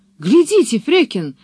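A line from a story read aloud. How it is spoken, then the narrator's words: Exclaiming. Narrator (Russian): воскликнул он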